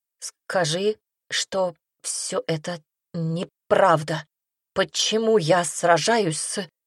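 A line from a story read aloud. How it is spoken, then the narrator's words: Panicked stammer. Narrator (Russian): Паника подступала к горлу, как желчь, когда она, заикаясь, произнесла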